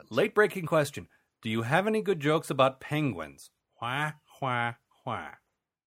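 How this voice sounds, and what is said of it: Special question-reading voice. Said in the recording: “doing my question reading voice ... I'm doing the question reading voice.”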